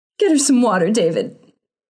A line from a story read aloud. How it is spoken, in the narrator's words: sobbed her mother